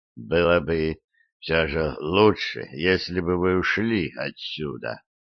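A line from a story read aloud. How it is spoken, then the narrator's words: Soft sad voice. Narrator (Russian): заговорил он своим мягким и грустным голосом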